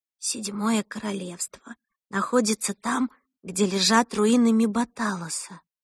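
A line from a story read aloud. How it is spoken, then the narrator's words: Whisper. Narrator (Russian): прошептала она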